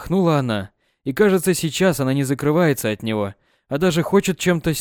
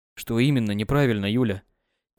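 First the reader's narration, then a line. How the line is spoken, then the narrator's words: Quiet question. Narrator (Russian): Тихо поинтересовался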